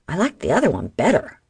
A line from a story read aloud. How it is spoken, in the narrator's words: a man grumbled